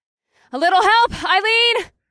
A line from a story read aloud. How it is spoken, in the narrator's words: I called out